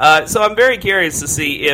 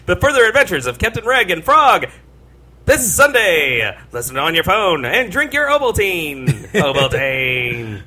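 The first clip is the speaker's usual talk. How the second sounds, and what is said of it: Mock radio announcer voice. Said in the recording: “that's my attempt for a radio voice. That didn't quite work.”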